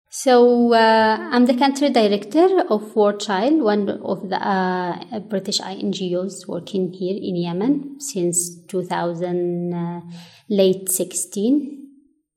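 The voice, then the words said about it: Yemeni accent in English. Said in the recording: “my accent is from Taiz City ... one of the cities in the south of Yemen. So we always like have this accent when we speak any other language.”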